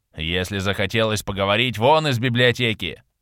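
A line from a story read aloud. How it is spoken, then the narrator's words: Old man grumbling. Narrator (Russian): Начал ворчать седовласый хранитель шаманской книги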